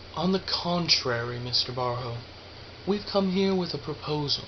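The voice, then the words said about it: Soft, polite reassuring voice. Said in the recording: “began reassuring Barjo in a soft, polite accent”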